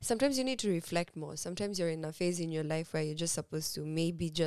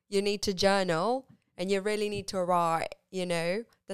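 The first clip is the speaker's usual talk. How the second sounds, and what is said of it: Deliberately bad put-on accent. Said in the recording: “That's a very bad accent”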